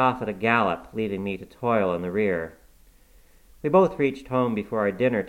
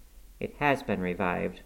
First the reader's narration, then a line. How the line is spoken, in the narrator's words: muttered Cathy sulkily